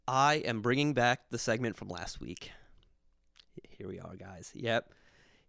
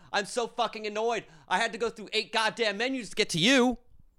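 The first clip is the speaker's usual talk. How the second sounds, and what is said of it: Screaming, angry shouting. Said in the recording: “I just keep screaming off the microphone.”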